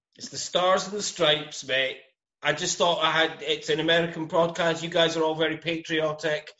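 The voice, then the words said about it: Scottish Glasgow accent. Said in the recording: “pride of Glasgow, Scotland ... the original Gadgie with the best accent in the biz”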